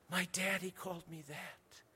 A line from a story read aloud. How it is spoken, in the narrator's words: whispered